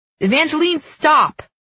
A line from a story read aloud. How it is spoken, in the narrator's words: Maven shouts